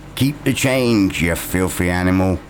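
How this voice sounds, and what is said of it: Imitates a movie character's voice. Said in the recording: “That's my impression.”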